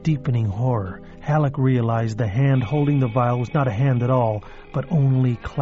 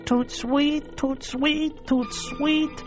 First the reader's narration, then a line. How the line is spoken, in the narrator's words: Houston's squalling, rat-like voice screamed